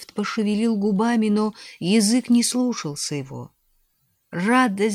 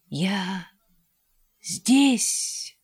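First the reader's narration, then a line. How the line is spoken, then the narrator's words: Whisper. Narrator (Russian): прошептал он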